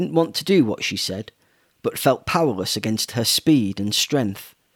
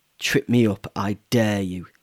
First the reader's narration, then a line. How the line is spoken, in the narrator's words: spat